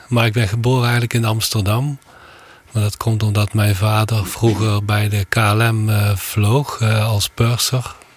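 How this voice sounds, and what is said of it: Limburg regional Dutch accent. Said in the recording (Dutch): “aan uw accent te horen toch alweer wat langer woonachtig in Limburg”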